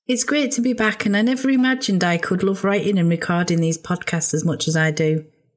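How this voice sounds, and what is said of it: Slightly hoarse voice. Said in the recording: “excuse my voice, it's a little bit hoarse.”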